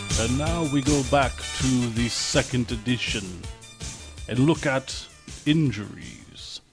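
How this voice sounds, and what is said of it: Crazy old man vampire voice. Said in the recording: “Some crazy old man voice? Or are you a vampire? ... I'm a crazy old man vampire.”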